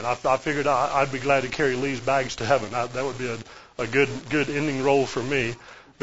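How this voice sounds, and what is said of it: Southern US accent. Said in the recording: “in the Southeast, if you can't tell by now from my accent”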